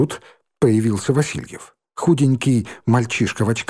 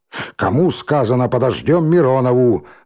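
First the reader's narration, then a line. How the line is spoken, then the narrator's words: Menacing repetition. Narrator (Russian): грозно повторил Лохматый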